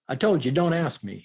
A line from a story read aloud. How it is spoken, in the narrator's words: he snaps